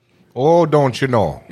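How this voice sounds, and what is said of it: Mock Canadian accent. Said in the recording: “we're just about Canadian ... Is that supposed to be an accent?”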